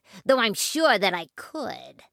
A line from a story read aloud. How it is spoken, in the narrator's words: sneered the rat